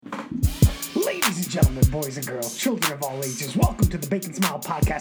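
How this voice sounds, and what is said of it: Very fast, excited speech. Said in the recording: “yes, I'm talking very fast because I'm pumped up”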